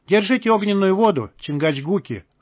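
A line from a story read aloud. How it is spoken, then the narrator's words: Male smirking grunt. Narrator (Russian): хмыкнул он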